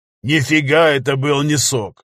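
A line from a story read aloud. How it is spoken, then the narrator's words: Said, then laughing. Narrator (Russian): сказал Виталик и расхохотался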